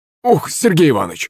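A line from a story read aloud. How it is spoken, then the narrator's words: Servant exclaiming. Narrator (Russian): воскликнул слуга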